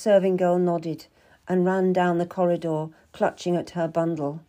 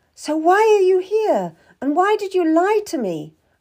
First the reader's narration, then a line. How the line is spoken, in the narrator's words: I cried, my voice getting louder as I got more upset